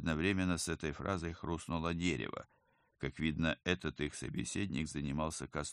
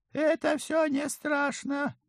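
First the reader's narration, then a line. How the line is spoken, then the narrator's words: Soothing squeaky voice. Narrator (Russian): успокоил его обладатель подвизгивающего голоса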